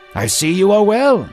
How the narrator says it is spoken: Jesus exclaimed

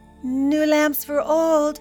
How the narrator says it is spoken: cried the peddler

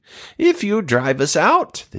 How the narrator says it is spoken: the demons begged

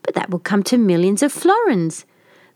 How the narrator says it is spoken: cried the citizens

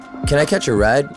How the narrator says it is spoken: I asked

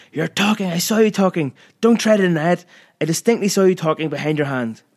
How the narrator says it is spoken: Captain Hardcastle had leapt to his feet and was pointing at me, shouting

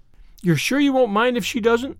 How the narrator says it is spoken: said Paul anxiously

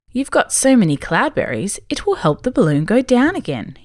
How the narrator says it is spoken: told them happily

